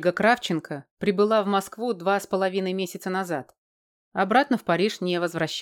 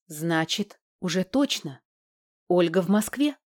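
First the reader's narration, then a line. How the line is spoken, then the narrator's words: Breathless exhale. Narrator (Russian): выдохнула Валька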